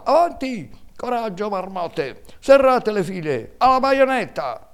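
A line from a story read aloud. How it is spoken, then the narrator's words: General shouting amid battle. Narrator (Italian): nel bollor della mischia si sentiva sempre la voce del generale che gridava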